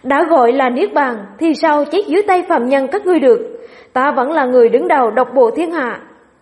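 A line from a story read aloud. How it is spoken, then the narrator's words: Booming laughter. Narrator (Vietnamese): Ân bái cười to sang sảng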